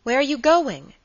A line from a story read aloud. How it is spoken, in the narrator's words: exclaimed his friend